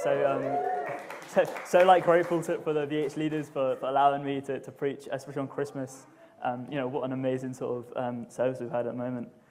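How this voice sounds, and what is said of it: Southern English accent. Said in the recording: “as you might be able to tell from my accent, I'm not from up here. I'm from down south. I'm from a place called Reading, which is 30 minutes by train from London”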